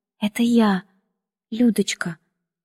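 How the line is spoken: Timid speech. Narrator (Russian): робко произнесла

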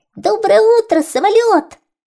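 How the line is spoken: Shouting, small mouse. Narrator (Russian): закричал мышонок

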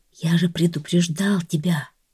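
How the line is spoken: Whispered. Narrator (Russian): прошептал раб

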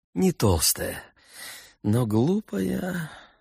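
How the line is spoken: Sigh. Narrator (Russian): вздохнул Иван Иванович

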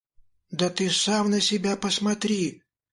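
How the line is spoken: Babbling. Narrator (Russian): пролепетала Мила

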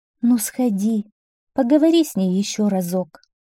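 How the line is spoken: Sighing queen. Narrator (Russian): вздохнула королева

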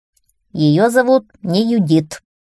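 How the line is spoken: Stern, hare. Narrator (Russian): строго сказал заяц

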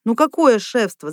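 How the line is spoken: Laughing. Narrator (Russian): засмеялся Леонтий Федорович

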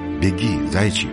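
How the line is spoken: Quiet. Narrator (Russian): тихо проговорил

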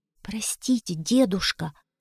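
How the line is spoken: Whisper. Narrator (Russian): прошептал Витя

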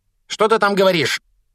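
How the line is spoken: Barking through door. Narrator (Russian): рявкнула тетя из-за двери

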